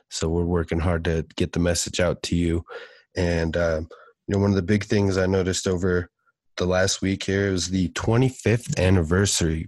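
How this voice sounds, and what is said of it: Stuffy, congested voice. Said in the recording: “if I sound a little stuffy or under the weather”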